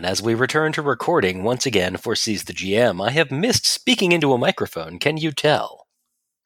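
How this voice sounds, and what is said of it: Slick radio announcer voice. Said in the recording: “super slick kind of, I am a good speaky person ... radio voice”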